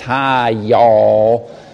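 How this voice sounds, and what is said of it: Slow drawn-out Southern drawl. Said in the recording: “He had a southern accent, so the say hi took him 10 minutes.”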